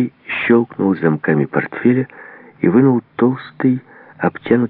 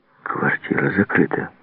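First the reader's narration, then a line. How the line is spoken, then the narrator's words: Whisper. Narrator (Russian): прошептал Рыжий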